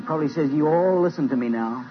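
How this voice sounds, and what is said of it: Put-on American accent. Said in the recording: “I think he must speak to you with an American accent.”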